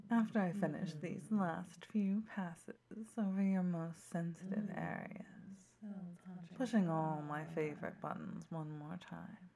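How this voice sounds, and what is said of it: Sultry, seductive low voice. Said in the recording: “my sexy voice”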